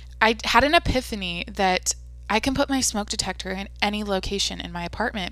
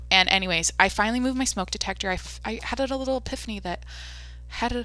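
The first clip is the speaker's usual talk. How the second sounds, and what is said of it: Talking very fast. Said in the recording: “I'm talking too fast.”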